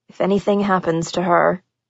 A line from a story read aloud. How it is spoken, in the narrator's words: he muttered to himself